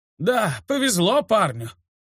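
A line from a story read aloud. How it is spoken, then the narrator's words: Sigh. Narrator (Russian): вздохнул Нед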